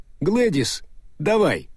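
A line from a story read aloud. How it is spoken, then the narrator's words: Shout. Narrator (Russian): Он крикнул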